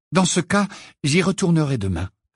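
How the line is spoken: Determined reply. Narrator (French): répondit Hermione d'un ton décidé

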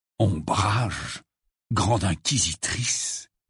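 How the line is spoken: Gloomy murmur. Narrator (French): murmura Harry d'un air sombre

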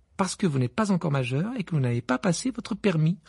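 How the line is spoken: Curt dry retort. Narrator (French): répliqua sèchement Madame Wesley

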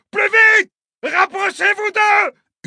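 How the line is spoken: Yelled. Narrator (French): hurle de Soya à l'adresse de la pilote

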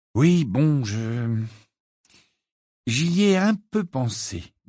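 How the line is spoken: Slow speech. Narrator (French): dit lentement

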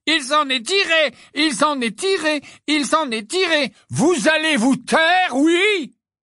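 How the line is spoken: Roaring. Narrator (French): rugit Mrs

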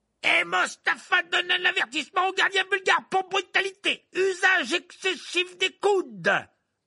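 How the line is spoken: Announcing over screaming crowd. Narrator (French): annonça Verplay aux spectateurs qui hurlaient de toutes parts

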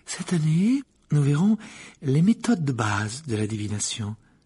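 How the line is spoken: Calm, peaceful voice. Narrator (French): poursuivit le professeur d'une voix paisible

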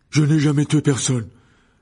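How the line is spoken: Young man exclaiming. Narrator (French): s'écria le jeune homme

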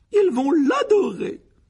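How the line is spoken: Delighted exclamation. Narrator (French): s'exclama la tante Pétunia avec ravissement

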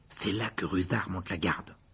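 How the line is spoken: Muttered. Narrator (French): marmonna Ron

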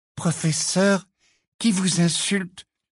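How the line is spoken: Timid question. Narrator (French): demanda timidement Parvati

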